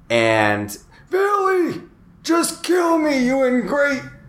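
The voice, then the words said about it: Impression of a dying old man. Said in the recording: “That's the best impression you've ever done ... Dying old man is your best impression.”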